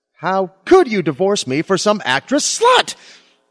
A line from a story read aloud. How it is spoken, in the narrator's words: shouted my Lily